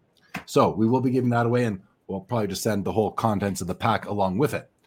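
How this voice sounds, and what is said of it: Strained, worn-out voice. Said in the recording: “I can't talk anymore... Time for some chamomile tea... give my voice a rest”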